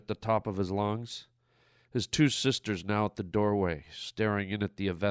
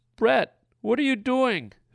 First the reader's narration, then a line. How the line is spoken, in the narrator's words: his 14-year-old sister Rebecca screamed